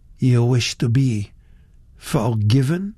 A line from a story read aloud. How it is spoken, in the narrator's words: he said